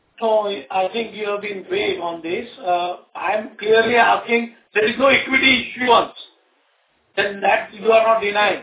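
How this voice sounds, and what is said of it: Shouting, raised angry voice. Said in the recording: “Why are you shouting”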